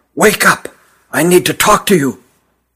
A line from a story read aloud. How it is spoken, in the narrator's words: he whispered huskily